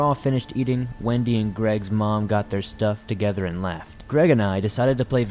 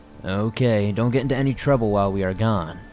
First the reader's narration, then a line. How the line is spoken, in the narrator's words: she said